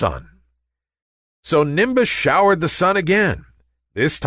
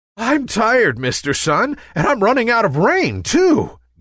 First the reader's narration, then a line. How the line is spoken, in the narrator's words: gasped Nimbus